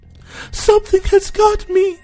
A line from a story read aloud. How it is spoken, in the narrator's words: she screamed